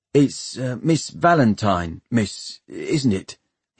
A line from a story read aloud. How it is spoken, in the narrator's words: he said nervously